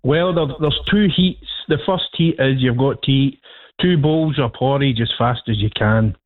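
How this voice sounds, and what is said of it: Speaks with a noticeable accent. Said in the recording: “Beautiful accent.”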